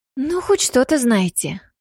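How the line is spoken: Sighing. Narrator (Russian): вздохнула Йосика

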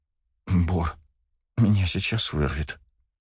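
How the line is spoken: Queasy mutter. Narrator (Russian): пробормотала Агата

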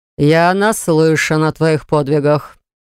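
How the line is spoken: Through clenched fangs. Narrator (Russian): процедил шеф сквозь клыки

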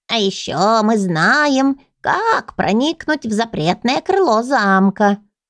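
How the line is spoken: Creaky voice. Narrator (Russian): проскрипела третья полулягушка

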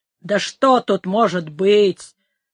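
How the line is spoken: Grumbling. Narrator (Russian): проворчал Леон

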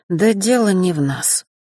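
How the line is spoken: Sighing. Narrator (Russian): вздохнул Джулиан

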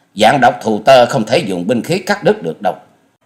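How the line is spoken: Sharp shout. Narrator (Vietnamese): Hoa Dần Dần quát lên

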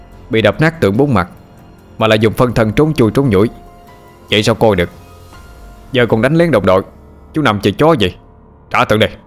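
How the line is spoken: Shouting. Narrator (Vietnamese): Hạo cho quát lên

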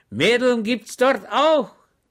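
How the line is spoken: Shouted. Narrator (German): schrie Schweg

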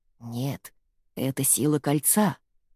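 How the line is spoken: Grandmother's whisper. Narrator (Russian): прошептала бабушка Селии

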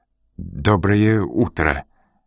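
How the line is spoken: Thin, trembling voice. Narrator (Russian): сказал тонким, дрожащим голосом

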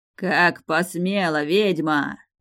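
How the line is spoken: Angry bark. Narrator (Russian): рявкнул Ургаш

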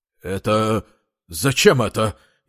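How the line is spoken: Policeman, frightened, forced out. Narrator (Russian): Испуганно выдавил из себя околоточный

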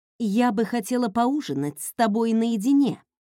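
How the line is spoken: Plain. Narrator (Russian): сказала

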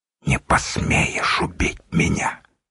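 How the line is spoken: Whisper. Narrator (Russian): прошептал Волох

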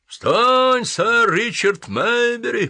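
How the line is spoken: Roar. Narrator (Russian): проревел

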